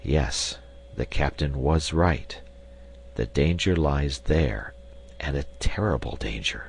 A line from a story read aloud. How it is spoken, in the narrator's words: said in a low voice